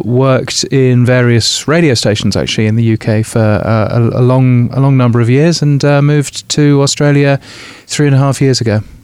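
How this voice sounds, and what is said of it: British English accent. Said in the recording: “Your accent gives away that you're from a little bit further afield... So I'm a Brit.”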